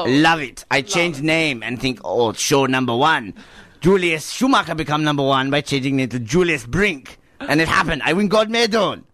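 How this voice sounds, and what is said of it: Odd mixed German-style accent. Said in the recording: “I've never heard an accent like that from Germany. ... it's a different accent. It's got a mixture of Austria, a bit of Liechtenstein.”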